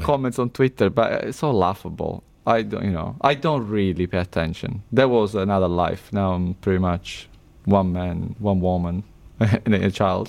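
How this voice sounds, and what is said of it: Speaks with an engaging accent. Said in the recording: “the accent is really engaging”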